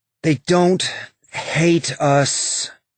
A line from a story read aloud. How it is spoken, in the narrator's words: Bobby said, her voice tired